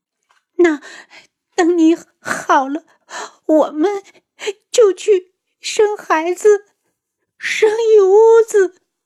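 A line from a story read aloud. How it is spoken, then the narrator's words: Sobbing hard. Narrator (Chinese): 楚清瑶哭得更凶，抽噎着道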